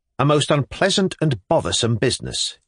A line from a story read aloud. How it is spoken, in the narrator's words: he answered, almost angrily